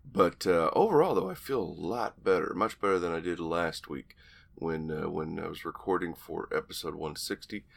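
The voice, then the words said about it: Hoarse, deep, froggy voice. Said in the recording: “you can hear it in my voice. Still got a little frog in there. I got a little bit of my Barry White going on right now.”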